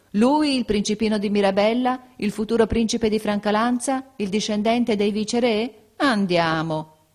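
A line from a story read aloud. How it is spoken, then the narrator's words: Incredulous laughing exclamation. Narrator (Italian): ridevano di incredulità, esclamando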